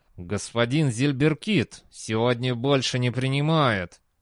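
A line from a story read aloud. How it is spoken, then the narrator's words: Muttered through side of mouth. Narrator (Russian): процедил человек одной стороной рта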